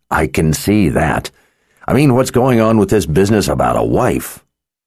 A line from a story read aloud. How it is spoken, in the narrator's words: Nicky let out a tired sigh